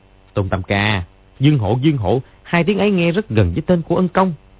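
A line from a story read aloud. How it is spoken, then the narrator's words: Sudden loud cry. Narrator (Vietnamese): Gã họ Trần có vẻ thất vọng, lẩm bẩm gì đó, đột nhiên kêu to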